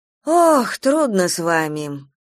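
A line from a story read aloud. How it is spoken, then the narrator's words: Sighed. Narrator (Russian): вздохнула дежурная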